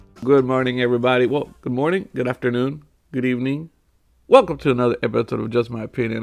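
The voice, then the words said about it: Raspy, sore-throated voice. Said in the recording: “I'm getting sick. You hear this voice? ... You sound a little raspy. ... Raspy. ... my throat is very sore ... scratchy-throated”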